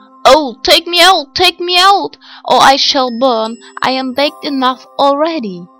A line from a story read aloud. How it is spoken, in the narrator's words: the bread called out to her